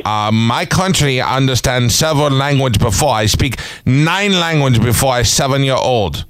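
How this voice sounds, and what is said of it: Foreign accent, broken English. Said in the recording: “a man have a little accent”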